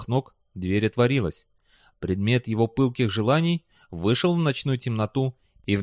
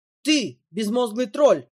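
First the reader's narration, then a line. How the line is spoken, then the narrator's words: Angry bark. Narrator (Russian): рявкнула она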